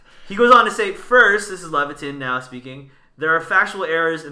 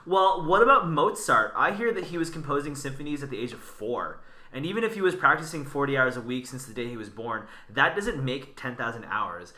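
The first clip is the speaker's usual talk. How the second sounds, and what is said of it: Put-on Valley girl accent. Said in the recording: “put on like a Valley accent. Some chick from like Chino Hills.”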